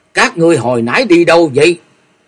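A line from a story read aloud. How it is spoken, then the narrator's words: Deep loud shout. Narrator (Vietnamese): Lăng Phong đạo trưởng thấy vậy trầm thanh quát lớn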